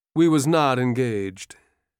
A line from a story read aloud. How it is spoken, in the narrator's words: Tom said gloomily